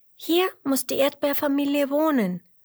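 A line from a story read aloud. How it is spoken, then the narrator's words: Calling into a hole. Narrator (German): ruft Emmerla und ruft ins Loch hinein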